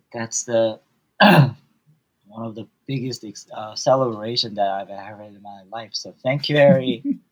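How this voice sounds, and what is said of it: Tearful, emotional voice. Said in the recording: “Sorry for my voice. I tears swelling up.”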